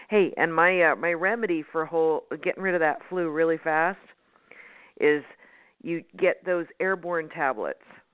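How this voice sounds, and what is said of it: Voice sounding a little funky. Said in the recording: “I've been fighting that flu. It's almost gone. ... My voice sounds a little funky”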